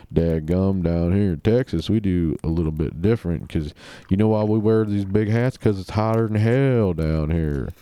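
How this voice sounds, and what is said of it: Exaggerated Texas accent. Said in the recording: “thick Texas accent ... It kind of weaves in and out of being over the top, but I guess that's a Texas accent for you.”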